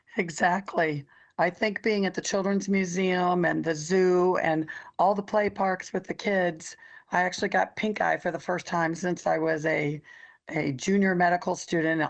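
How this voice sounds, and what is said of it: Hoarse voice, frog in throat. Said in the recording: “you're a little under the weather today... you sound a little different... you just got a little bit of a frog in your throat... laryngitis”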